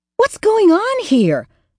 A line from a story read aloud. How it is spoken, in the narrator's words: exclaimed, shocked